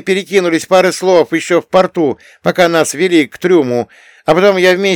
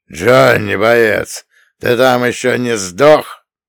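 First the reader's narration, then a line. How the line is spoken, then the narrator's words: Harsh grating male voice. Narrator (Russian): Голос мужика был хриплым и неприятным, будто напильником водили по металлу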